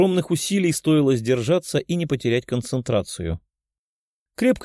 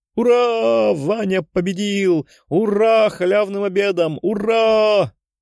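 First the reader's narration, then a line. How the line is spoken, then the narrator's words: Joyful shouting. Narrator (Russian): кричала Лиза, радостно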